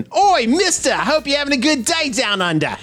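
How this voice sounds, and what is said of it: Mock Australian accent. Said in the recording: “Apologies to any Australian listeners for the accents. ... Not what Australians sound like.”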